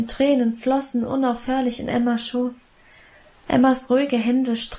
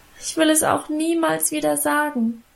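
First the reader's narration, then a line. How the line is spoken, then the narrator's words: Continued wailing. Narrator (German): jammerte ich weiter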